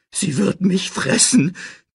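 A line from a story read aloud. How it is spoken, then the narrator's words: Shrieking. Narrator (German): kreischte Pumba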